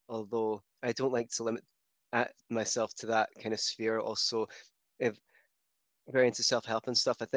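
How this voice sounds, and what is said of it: Scottish accent. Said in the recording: “as you may be able to tell from my accent, I'm not from the States, I'm from Scotland”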